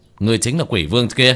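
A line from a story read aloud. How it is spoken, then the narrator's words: Shouting. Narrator (Vietnamese): quát lên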